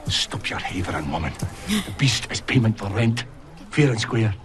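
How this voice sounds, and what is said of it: Strong Scottish accent. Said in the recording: “The Scottish accent was throwing me in the clips ... the Scottish accent is strong”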